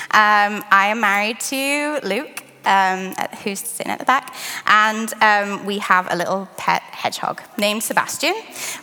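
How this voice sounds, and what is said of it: British accent. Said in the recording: “my interesting accent, I'm from the UK originally”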